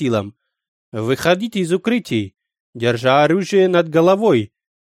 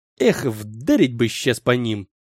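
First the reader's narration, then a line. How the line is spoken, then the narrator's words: Hissing. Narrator (Russian): прошипел кто-то из моего отделения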